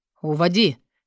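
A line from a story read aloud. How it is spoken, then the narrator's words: Barked. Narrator (Russian): рявкнул Тилояд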